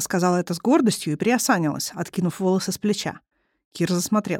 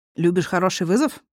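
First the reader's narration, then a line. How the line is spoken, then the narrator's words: Smirking grunt. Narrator (Russian): хмыкнул он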